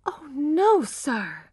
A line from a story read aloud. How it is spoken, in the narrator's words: she cried, horrified